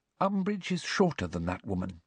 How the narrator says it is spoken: she said quietly

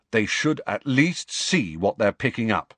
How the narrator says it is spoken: he said firmly

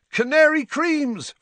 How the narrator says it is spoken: Fred shouted to the excitable crowd

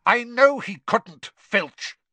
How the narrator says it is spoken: Snape snapped

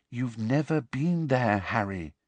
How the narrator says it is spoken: said Hermione quietly

